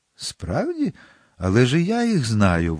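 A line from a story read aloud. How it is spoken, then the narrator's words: Exclaimed, frozen with horror. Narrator (Ukrainian): вигукнула, холонучи з жаху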